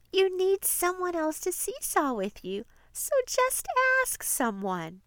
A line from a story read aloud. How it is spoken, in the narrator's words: Gracie begins to giggle and she says